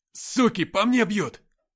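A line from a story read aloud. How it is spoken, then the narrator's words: Shouted over radio. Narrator (Russian): крикнул Никита в эфир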